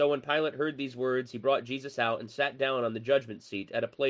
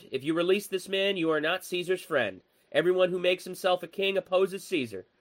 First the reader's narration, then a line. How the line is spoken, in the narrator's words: the Jews cried out